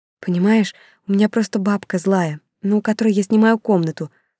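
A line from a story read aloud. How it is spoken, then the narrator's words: Quiet explaining. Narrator (Russian): стала я тихонько объяснять Олегу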